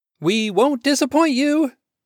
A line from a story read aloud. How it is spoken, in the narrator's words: Adam shouted through cupped hands